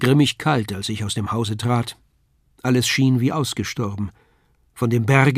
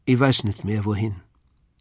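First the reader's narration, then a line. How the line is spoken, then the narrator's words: Flat toneless voice. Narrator (German): sagte sie tonlos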